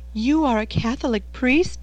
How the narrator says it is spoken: she cried

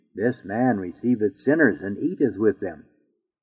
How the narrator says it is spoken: the Pharisees and scribes murmured, saying

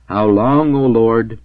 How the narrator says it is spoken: exclaimed the holy king and prophet in his exceeding love and ecstasy

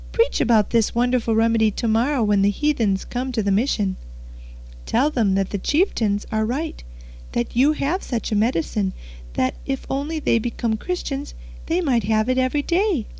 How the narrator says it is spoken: cried Stephen

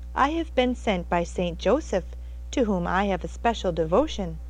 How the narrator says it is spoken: said the visitor meekly

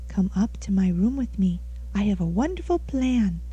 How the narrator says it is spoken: she whispered mysteriously into his ear

